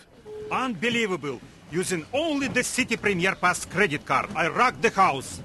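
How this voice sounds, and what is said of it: Exaggerated Eastern European accent. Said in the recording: “it's also hilarious to be Eastern European... Roman's accent and grammatical quirks are similarly unimaginative”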